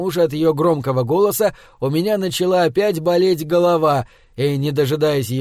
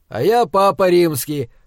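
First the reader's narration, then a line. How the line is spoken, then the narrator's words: Angry rude retort. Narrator (Russian): зло нахамил ей в ответ я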